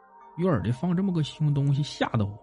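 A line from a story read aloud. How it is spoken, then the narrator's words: Muttering. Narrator (Chinese): 老伴嘟囔着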